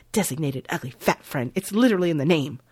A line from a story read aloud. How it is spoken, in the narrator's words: She hisses